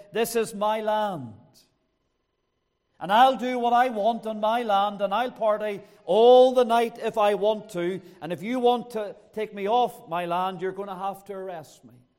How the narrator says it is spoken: he shouted down to the policeman, he said

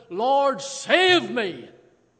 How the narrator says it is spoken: from his heart he cried out

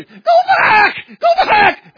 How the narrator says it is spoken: he screamed again

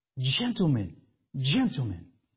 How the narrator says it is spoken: almost out of control as he whispered

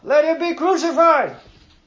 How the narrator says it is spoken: they shouted all the more

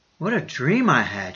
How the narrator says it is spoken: she said

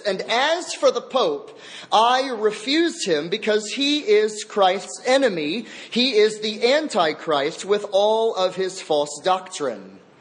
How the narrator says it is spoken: Thomas Cranmer lifted up his voice even louder and said this

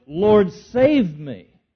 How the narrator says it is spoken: he cried out

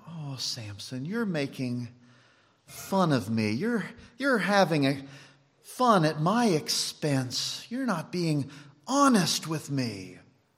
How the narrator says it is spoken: she cries out

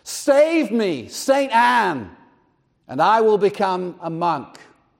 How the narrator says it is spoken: he immediately cried out

